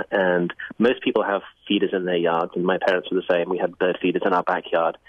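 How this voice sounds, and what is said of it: British English accent. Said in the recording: “You can probably tell from my accent I didn't grow up here. ... I grew up in the UK”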